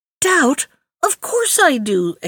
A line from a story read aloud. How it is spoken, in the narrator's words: exclaimed Maimoune